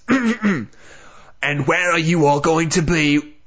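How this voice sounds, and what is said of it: Angry Uncle Vernon accent. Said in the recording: “get my accent right ... You're hitting the B too hard. You sound very angry.”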